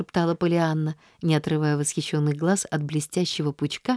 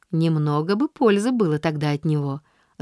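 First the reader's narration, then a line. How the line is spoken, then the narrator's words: Laughing man. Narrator (Russian): засмеялся мужчина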